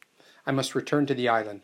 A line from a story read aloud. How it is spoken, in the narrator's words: I said